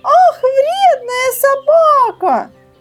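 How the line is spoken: Shouting. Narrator (Russian): закричала Женя

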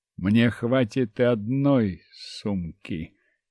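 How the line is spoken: Quiet. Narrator (Russian): негромко сказал я

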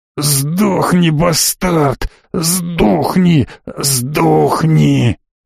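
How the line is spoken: Wheezing, gurgling blood. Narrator (Russian): Захрипел Хуан, пуская изо рта кровавые пузыри

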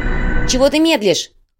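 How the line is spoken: Shouted. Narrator (Russian): крикнула Майя

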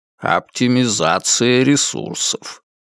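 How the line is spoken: Mumbling. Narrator (Russian): бормочет он

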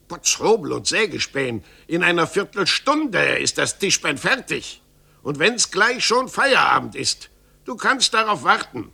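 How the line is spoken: Furious shout. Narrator (German): wurde Meister Pflaume wild und rief

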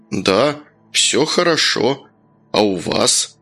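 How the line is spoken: Quiet calm. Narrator (Russian): незнакомец говорил тихо и спокойно

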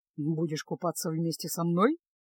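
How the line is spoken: Calm, ironic. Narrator (Russian): Иронично усмехнувшись, уже совершенно спокойно поинтересовался Кайл

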